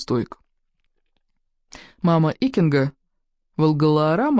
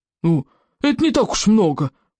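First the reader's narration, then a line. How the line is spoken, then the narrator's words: Roar. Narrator (Russian): проревел Стоик обширный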